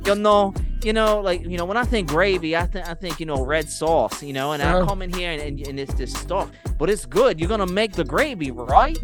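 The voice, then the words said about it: Put-on New Jersey accent. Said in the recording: “with her Jersey accent ... That's so good ... Exactly right? How she sounds.”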